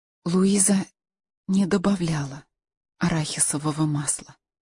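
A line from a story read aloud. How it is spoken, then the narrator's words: Whisper. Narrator (Russian): прошептала Каролина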